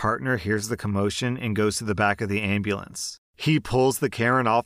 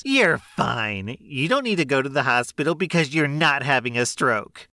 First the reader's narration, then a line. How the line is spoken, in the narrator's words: The entitled neighbor yells back at her and says